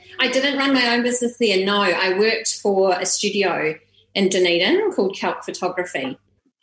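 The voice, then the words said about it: Strong New Zealand accent. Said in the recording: “you have a strong Kiwi accent.”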